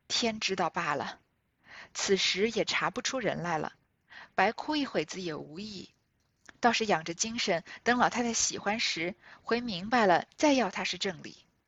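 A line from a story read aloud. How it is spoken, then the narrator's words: Sighing. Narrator (Chinese): 袭人……因叹道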